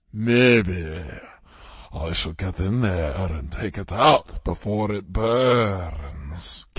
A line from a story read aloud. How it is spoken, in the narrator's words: Kevin rumbled